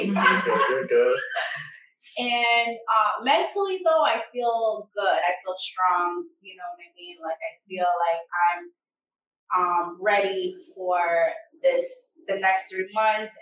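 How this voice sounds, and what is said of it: Stuffy, nasal voice. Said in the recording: “I'm a little stuffy, so excuse my if I sound a little nasally.”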